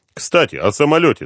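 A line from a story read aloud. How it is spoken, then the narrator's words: Plain. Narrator (Russian): сказал Дронго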